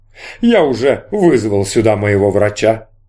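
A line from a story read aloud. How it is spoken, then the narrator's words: Plain. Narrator (Russian): сказал Ахлит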